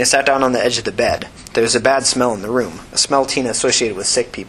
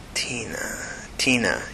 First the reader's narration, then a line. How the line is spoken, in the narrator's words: he mumbled to himself